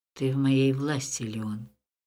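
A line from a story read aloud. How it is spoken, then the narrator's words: Emperor's hoarse voice. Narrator (Russian): хрипло сказал император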